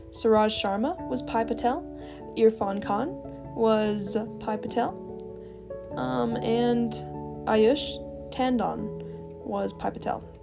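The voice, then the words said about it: Odd, very enunciated podcast voice. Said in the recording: “put on this odd voice whenever I'm doing podcast. It sounds very, very enunciated ... once I hit the record button, there I am, enunciating”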